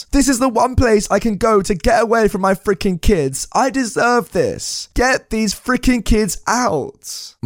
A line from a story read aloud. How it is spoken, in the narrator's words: screams